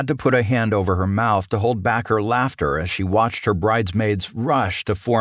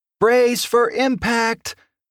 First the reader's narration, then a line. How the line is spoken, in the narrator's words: yelled as she hurried